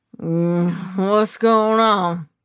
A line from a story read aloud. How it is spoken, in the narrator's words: George asked, his words slurring